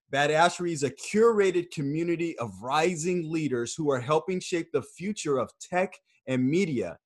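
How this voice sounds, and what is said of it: Polished announcer-style voice. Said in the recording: “You just have like this announcer voice. And when you say Badassery, it sounds extra good.”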